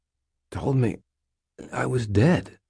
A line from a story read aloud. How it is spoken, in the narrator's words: I muttered